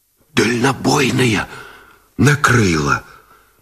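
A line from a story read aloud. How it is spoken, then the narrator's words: Pale signalman's forced whisper. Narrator (Russian): Шепотом выдавил связист Гусев бледнее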